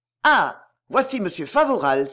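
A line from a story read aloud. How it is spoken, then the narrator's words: Exclaiming together. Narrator (French): s'écrièrent-ils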